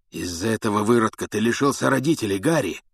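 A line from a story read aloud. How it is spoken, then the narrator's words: Hoarse rasp. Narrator (Russian): прохрипел Блэк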